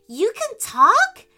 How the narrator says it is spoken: Frankie exclaimed

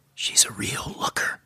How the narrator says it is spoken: Rob whispered in my ear

